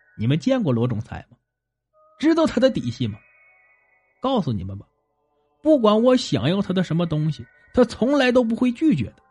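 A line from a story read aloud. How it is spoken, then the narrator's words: Loud laughter. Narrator (Chinese): 鬼大爷哈哈大笑起来，道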